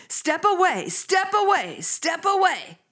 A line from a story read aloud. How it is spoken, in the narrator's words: she kept yelling